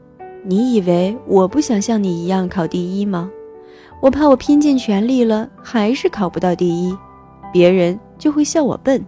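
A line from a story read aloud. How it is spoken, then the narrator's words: Resigned sigh. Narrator (Chinese): 他无奈地叹了口气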